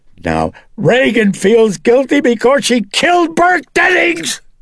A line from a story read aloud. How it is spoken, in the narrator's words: Chris shrieked